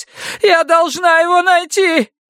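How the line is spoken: Unrestrained scream, pinned down. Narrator (Russian): не сдерживаясь, завопила, когда ее повалили и прижали лицом к асфальту

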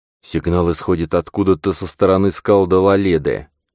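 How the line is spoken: Plain. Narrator (Russian): сказал он

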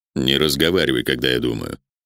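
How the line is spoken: Quiet. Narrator (Russian): негромко сказал Вектор

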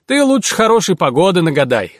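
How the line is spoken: Old man's scoffing snort. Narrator (Russian): хмыкнул дед

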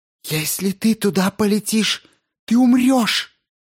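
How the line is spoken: Wailing, trembling lips. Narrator (Russian): Завопила она, ее губы чуть дрогнули

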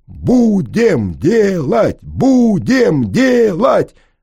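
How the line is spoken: Loud joyful crowd shouting. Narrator (Russian): Албанцы, русские, сомалийцы, эфиопы, чеченцы и грузины кричали одно, самое важное для них, кричали сильно и радостно

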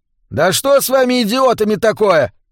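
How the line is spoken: Yelling. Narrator (Russian): заорал он

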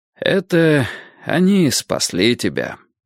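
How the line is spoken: Sighing. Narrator (Russian): вздохнул Гурский

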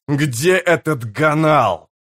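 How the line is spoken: Growling. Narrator (Russian): прорычал он

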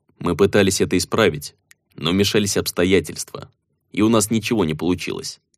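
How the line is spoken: Said gloomily. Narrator (Russian): мрачно произнес Рох

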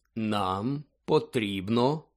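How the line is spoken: Slow speech. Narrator (Ukrainian): повільно проказав Дамблдор

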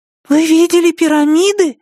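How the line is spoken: Exclaiming. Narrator (Russian): воскликнула она

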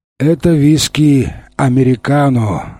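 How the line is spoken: Sigh. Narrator (Russian): вздохнул один из жандармов

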